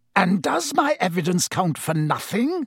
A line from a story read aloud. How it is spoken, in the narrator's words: snarled Snape